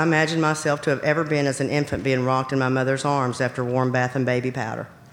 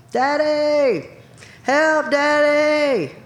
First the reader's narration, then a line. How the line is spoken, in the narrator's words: screamed again and again